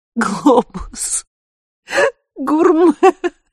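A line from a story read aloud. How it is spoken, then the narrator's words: Wheezed through tears and laughter. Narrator (Russian): выговорила, просипела, выплюнула вместе со слезами и смехом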